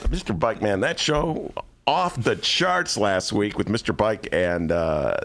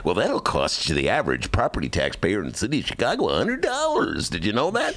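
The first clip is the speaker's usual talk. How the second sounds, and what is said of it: Generic radio announcer voice. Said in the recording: “Is that an impression of anybody in particular? ... That's just the general, my radio impression.”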